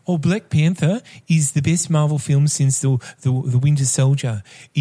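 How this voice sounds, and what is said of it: Imitates another person's voice. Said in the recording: “I will read out in my best Sebastian voice”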